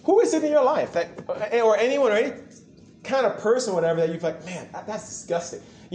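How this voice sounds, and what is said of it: American accent. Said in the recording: “you can recognize from my accent, I'm from the U.S.”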